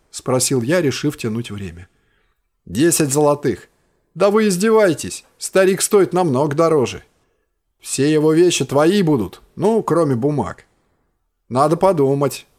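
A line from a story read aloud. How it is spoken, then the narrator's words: Plain. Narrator (Russian): ответил я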